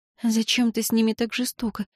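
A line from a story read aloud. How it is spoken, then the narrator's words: Tearful whisper. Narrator (Russian): прошептала она, вытерев кулаками мокрые глаза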